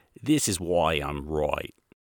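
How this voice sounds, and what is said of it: Put-on Australian accent. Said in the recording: “an awesome Australian accent”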